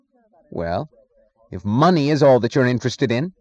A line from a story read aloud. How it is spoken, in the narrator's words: he snapped